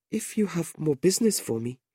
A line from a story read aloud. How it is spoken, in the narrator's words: Madeline said anxiously